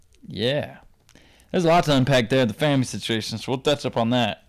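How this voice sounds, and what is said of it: Strong non-local accent. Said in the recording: “that psycho accent comes from, because it ain't from Provo”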